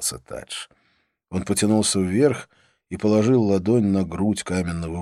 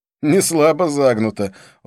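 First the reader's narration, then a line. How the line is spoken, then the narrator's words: Laughing. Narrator (Russian): он снова рассмеялся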